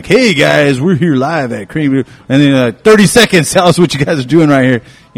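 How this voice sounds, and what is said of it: Put-on radio host voice. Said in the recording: “my radio voice”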